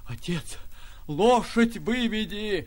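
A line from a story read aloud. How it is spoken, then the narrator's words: Hoarse coughing shout. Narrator (Russian): хрипя, кашляя, кричала она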